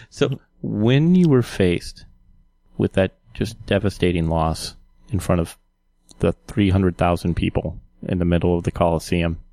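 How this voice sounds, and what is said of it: Mock-serious interviewer voice. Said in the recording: “I'm going to even adopt a serious voice.”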